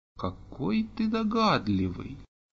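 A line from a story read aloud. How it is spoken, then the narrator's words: Slow drawl. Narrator (Russian): медленно протянул Олег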